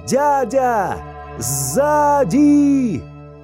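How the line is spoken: Sudden shout. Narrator (Russian): Неожиданно Иолай закричал

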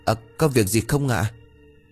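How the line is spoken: Stammering female question. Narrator (Vietnamese): Cô ấp úng hỏi

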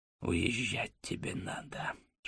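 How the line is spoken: Whisper in the ear. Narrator (Russian): шепнул мне на ухо Осип

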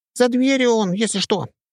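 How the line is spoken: Squeaky ghost voice. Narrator (Russian): пропищал призрак

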